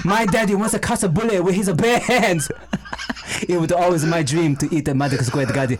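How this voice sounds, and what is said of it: Put-on Chinese accent, poorly done. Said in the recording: “it's probably going to be really terrible ... Chinese accent ... Just imitate Jackie Chan”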